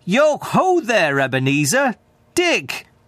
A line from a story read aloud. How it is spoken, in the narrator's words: called out in a jovial voice